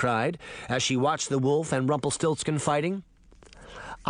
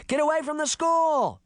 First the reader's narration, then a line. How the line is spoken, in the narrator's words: Sabrina shouted to the children